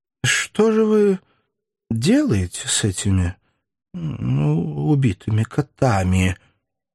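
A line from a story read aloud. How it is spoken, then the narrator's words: Dull, mechanical question. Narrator (Russian): спросил глухо и автоматически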